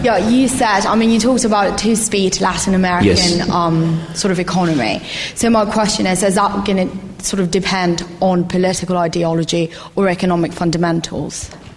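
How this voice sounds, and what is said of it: British accent. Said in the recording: “you have very beautiful British accent”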